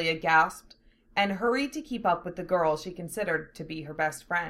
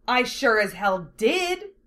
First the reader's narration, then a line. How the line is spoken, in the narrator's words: Lena snapped back